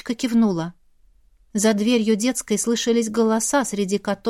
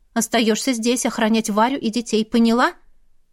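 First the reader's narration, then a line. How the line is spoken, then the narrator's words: Stern. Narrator (Russian): строго сказала ей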